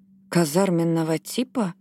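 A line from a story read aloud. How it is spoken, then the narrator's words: Quiet echoing mutter. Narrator (Russian): эхом повторила Джинни, пробормотав тихое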